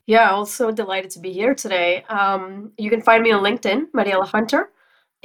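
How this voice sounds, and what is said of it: Voice worse than usual, sick-sounding. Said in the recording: “I promise my voice is normally better than this. I just happened to come off with a cold.”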